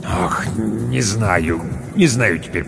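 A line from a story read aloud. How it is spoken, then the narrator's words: Mumble. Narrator (Russian): пробормотал управдом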